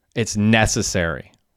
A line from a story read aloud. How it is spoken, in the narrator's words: replied Hecky